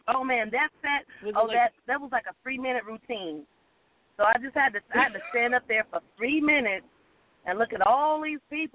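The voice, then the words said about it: Southern American drawl. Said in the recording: “my Southern accent... my Southern drawl”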